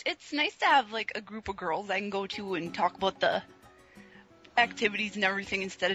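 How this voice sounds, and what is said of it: Upper Midwest American accent. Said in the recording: “I can tell from your accent you're roughly from the same region as Rob. ... you're just east of me. I'm in Minnesota. You're all over in Wisconsin ... Yeah, a Uper accent.”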